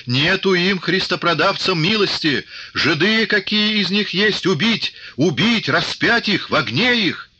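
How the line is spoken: Frenzied spluttering shout. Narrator (Russian): давясь слюной, закричал

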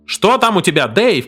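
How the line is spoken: Shouted. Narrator (Russian): крикнул Герри

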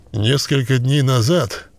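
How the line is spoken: Reluctantly forced out. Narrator (Russian): выдавил он наконец

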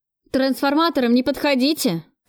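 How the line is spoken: Shouting. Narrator (Russian): крикнул мне энергетик

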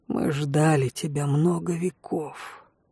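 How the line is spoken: Whispered, werewolf. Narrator (Russian): прошептал оборотень

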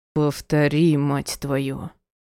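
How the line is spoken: Hoarse rasp. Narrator (Russian): прохрипел

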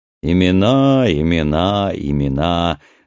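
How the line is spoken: Laughing. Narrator (Russian): рассмеялся Джонни

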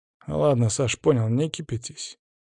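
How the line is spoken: Quiet, soothing words. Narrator (Russian): негромко сказал Паша

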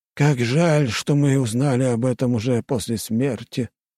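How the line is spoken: Sighing ghost. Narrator (Russian): вздохнул второй призрак

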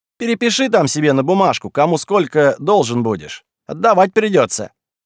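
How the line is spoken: Shouting after someone. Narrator (Russian): Бухгалтер крикнул ему в спину

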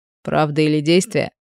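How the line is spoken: Chuckling. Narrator (Russian): Хит хохотнул

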